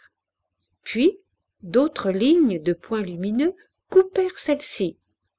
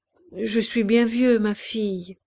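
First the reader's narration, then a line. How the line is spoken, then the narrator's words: Murmuring. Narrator (French): murmura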